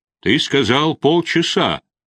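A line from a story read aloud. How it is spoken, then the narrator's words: Thundered. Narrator (Russian): прогремел Рудольф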